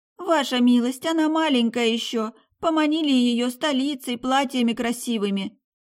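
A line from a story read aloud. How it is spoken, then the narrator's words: Sobbing. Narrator (Russian): всхлипывала Люси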